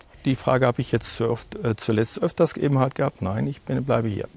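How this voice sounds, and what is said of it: Münsterland German regional accent. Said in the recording (German): “charmanten Akzent aus Münster ... Man hört es ja, dass Sie nicht von hier kommen.”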